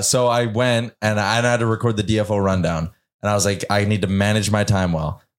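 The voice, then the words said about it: Raspy, hoarse voice. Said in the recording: “My voice is raspy as hell.”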